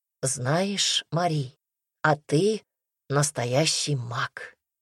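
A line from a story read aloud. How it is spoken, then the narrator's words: Husband's whisper. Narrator (Russian): шепнул супруг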